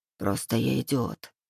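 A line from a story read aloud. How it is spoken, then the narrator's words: Muttered. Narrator (Russian): пробормотал я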